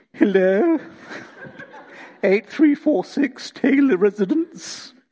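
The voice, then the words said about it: Posh phone voice like Hyacinth Bouquet. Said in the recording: “whenever she answered the phone, she transformed ... or like Hyacinth Bouquet”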